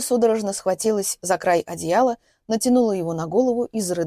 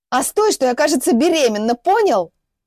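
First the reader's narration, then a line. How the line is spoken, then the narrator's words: Yelling. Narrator (Russian): Заорала она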